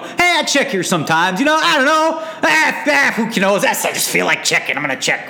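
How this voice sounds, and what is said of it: Puts on an unidentified accent. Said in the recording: “What is that accent?”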